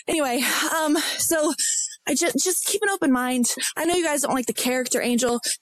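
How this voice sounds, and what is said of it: Out of breath while talking. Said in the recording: “I'm walking my dog. Oh, God, I'm out of breath.”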